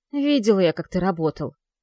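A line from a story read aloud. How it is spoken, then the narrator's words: Angry grumbling. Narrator (Russian): бурчит и зло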